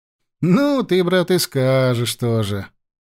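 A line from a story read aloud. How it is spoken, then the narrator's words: Drawling with a smile. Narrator (Russian): протянул с улыбкой Сергей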